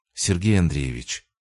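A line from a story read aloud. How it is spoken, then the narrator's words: Soft, slowed speech. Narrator (Russian): произнесла мягко, чуть снизив темп речи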